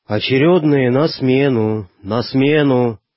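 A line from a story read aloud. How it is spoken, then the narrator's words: Sleepy voice. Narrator (Russian): сонным голосом проговорил боцман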